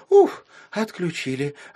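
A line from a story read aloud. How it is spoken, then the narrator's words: Girl's relieved exhale. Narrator (Russian): облегченно выдохнула девочка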